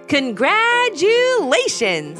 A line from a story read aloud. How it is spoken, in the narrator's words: he called out